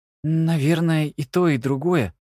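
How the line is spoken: Forced out. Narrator (Russian): выдавил наконец

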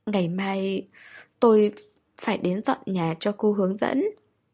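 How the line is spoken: Breathless sobbing. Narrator (Vietnamese): Hàn Gia Khang khóc không ra hơi nữa, nức nở nói

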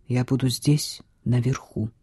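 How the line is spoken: Quiet speech. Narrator (Russian): тихо сказал Хьюго

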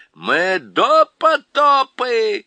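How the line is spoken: Joyful group shouting. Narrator (Russian): радостно кричали они

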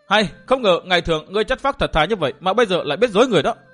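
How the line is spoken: Raised reproachful voice. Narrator (Vietnamese): Biết là mình đã bị lừa, nàng cao giọng trách

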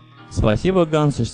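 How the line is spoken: Plain. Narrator (Russian): сказал он

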